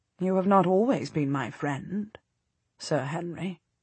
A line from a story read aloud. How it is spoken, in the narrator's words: she observes coolly